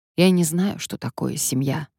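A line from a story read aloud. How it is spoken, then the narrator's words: Sigh. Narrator (Russian): вздохнул я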